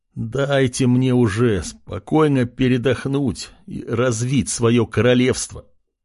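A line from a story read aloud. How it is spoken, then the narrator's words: Weary moan. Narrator (Russian): Устало простонав, парень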